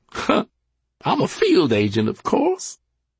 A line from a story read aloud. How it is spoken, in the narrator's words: snorted, laughed, and said